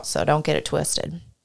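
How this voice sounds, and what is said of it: Fake Southern accent. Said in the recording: “That's how I talk too. ... I put that kind of fake Southern accent.”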